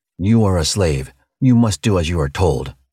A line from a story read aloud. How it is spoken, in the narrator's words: the man growled